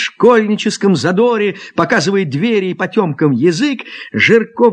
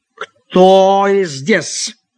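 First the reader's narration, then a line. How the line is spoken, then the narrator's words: Angry accented voice. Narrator (Russian): спросил сердитый голос с акцентом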